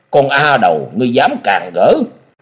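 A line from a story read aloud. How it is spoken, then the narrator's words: Angry loud shout. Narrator (Vietnamese): giận dữ hét lớn nói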